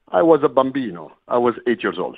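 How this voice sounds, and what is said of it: Exaggerated put-on foreign accent. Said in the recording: “he's got that accent ... I do put up the accent for the show”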